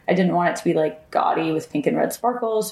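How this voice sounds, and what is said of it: Scratchy, tired voice. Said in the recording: “my voice sounds scratchy and exhausted”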